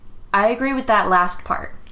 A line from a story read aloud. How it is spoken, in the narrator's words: Topanga said